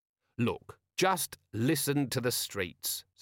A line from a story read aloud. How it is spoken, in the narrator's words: said Vimes